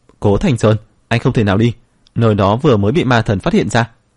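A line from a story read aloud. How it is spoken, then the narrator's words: Furious shout. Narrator (Vietnamese): có người phẫn nộ quát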